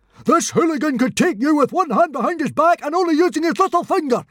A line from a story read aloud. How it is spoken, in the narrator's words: screamed Stoic the Vast